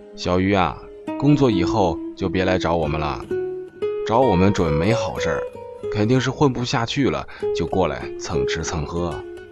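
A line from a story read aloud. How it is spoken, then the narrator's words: Joking group. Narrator (Chinese): 大家开玩笑地说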